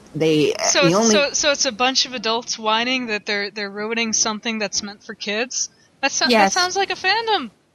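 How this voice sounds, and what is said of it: Slightly hoarse voice. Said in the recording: “I'm feeling a little hoarse.”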